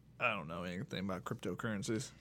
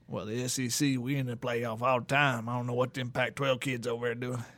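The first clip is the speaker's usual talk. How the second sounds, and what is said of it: Put-on Southern Louisiana accent. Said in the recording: “I don't know where that accent even came from... That's probably a Louisiana one.”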